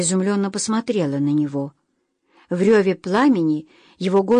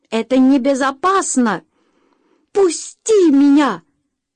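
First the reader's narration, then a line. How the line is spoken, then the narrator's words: Female scream. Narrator (Russian): закричала она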